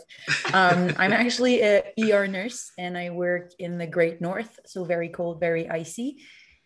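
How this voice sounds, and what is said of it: Slight Canadian accent from Montreal. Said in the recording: “I'm actually from Montreal, Canada, so I have a little bit of an accent ... such a Canadian answer ... mispronouncing stuff”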